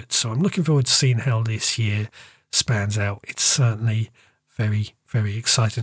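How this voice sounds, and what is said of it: Croaky voice. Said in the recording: “my voice is also a little bit croaky”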